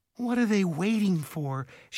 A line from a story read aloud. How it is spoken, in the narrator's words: she asked with a groan